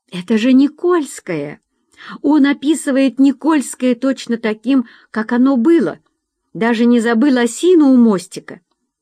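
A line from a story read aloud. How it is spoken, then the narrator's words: Exclaiming. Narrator (Russian): Татьяна Николаевна воскликнула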